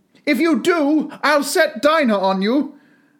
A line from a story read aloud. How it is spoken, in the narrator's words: Alice called out as loud as she could